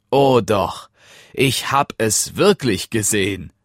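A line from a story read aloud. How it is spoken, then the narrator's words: Laughing reply. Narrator (German): erwiderte Hans lachend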